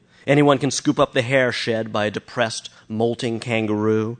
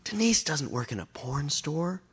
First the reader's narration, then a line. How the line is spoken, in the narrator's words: whispered Lucinda